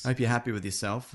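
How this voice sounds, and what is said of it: Sarcastic tone. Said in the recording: “you said that sarcastically”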